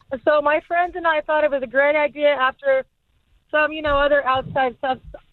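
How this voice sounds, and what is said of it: Hoarse, strained voice. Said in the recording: “losing my voice right now”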